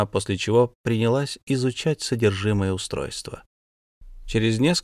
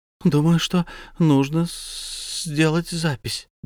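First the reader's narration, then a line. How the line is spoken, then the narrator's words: Stammering young woman. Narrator (Russian): девушка заикалась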